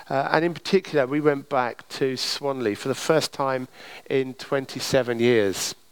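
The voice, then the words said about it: Kent English accent. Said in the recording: “Kent, my homeland, as you might be able to tell from my accent”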